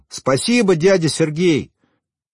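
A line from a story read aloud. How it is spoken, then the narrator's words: Shout. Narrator (Russian): Вадим крикнул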